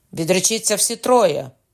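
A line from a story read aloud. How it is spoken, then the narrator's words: Shouted. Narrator (Ukrainian): крикнув Кокона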